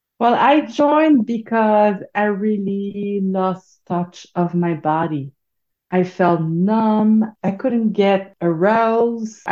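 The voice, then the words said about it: French accent. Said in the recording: “So that's the French accent you are hearing right now.”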